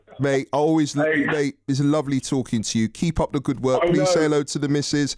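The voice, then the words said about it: North London accent. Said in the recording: “I thought he was a London boy. I can hear that bit of a twang”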